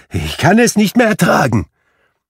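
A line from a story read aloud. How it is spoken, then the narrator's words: Exclaiming. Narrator (German): rief Scrooge aus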